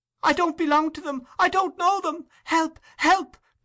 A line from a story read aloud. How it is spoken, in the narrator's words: cried Oliver, struggling in the man's powerful grasp